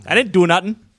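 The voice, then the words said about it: Imitates another person's voice. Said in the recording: “I've heard that's a good impression.”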